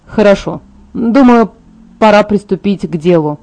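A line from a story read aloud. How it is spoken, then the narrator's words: Sighing. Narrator (Russian): вздохнул он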